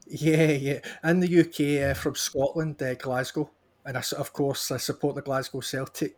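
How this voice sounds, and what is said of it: Scottish accent. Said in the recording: “Maybe the accent gives a little indication?”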